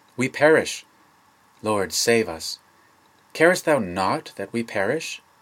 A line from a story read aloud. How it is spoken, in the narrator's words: exclaimed they